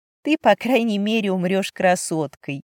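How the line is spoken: Matching chuckle. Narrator (Russian): в тон ей хохотнула я

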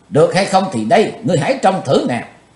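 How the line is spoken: Murderous shout. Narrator (Vietnamese): Chí Tôn lừng sát khí, chàng quát lên

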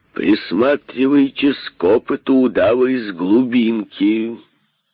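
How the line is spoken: Plain. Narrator (Russian): сказал царь

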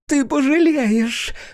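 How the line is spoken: Shrieking. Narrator (Russian): взвизгнула она

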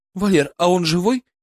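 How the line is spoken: Frightened question. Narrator (Russian): испуганно спросила Ольга

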